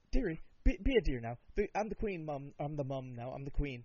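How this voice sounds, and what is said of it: Poor imitation of a posh British accent. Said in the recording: “the Queen of England ... this is a shit accent”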